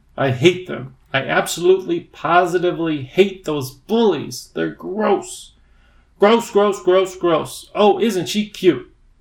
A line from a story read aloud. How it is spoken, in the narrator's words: The creatures simpered and sneered